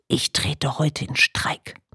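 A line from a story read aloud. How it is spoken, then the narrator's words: Whisper in ear. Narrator (German): flüsterte mir ins Ohr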